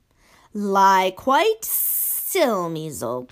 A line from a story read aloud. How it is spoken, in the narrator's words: boomed Basil